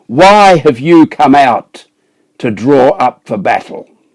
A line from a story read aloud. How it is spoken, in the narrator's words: shouted to the ranks of Israel